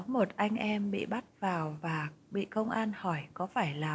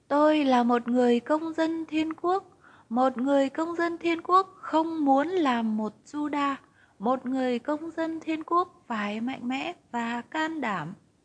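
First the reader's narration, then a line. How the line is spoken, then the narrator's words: Cried out. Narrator (Vietnamese): John đã kêu lên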